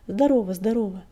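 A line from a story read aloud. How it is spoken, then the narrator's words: Joyful reply. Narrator (Russian): радостно ответил Клубок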